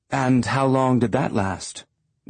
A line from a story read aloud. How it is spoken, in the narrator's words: asked